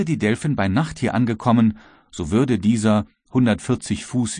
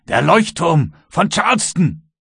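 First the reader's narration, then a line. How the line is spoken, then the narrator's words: Exclaimed. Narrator (German): rief er aus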